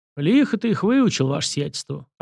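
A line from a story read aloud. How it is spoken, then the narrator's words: Approving grumble, cossack. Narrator (Russian): одобрительно проворчал казак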